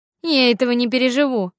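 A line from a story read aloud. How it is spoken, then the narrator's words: Mocking. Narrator (Russian): насмешливо сказал Артур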